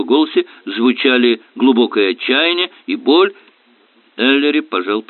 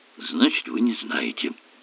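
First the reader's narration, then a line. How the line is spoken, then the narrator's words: Muttering. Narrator (Russian): пробормотал Кирк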